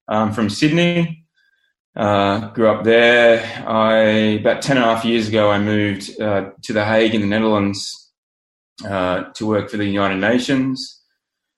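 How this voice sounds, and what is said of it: Australian accent. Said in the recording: “as you can probably tell from my accent, I'm Australian.”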